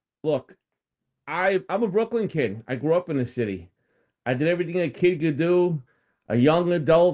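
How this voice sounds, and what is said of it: Brooklyn accent. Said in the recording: “We like your Brooklyn accent.”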